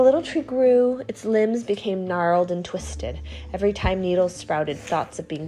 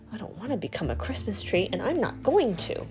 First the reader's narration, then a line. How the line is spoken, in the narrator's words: The little tree grumbled